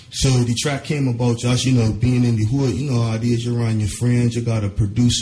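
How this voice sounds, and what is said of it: Barbadian-like Caribbean accent. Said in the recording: “You hear the accent? ... it's a very similar accent”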